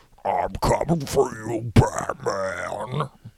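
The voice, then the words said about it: Big villain character voice. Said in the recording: “You got to have a big voice for it ... you just need a big, like...”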